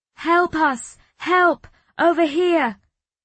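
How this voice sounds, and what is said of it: Shouting for help. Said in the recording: “Can you shout? ... Keep shouting.”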